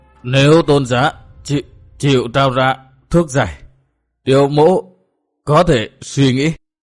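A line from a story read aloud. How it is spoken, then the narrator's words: Stammering in anguish. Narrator (Vietnamese): Cung thần ra chiều vô cùng đau khổ, lắp bắp nói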